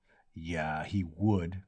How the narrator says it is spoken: Clem Zaref rumbled

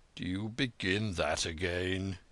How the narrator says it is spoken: He murmured

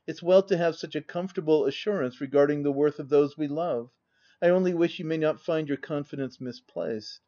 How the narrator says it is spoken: observed Eliza, with a gentle sigh

